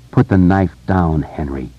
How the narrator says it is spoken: Mike said quietly

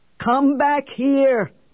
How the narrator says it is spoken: he bellowed

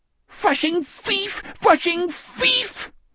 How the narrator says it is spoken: the spider squealed

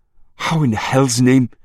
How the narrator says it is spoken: Marie gasped

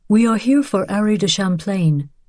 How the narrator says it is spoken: the rabbi said in a gentle voice

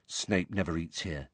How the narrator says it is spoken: Ron told Harry quietly

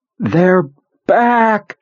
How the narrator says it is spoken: screamed

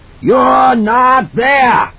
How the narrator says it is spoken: Halloran screamed

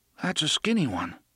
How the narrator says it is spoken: Eddie said sleepily

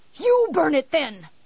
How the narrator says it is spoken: he yelled at her

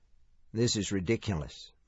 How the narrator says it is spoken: Mike murmured

